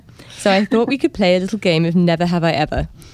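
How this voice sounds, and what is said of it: Polite-sounding nice accent. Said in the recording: “so much more polite in your nice accent”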